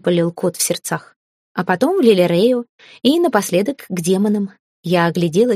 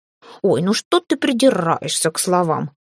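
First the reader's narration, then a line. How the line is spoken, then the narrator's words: Snorting cat. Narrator (Russian): фыркнул кот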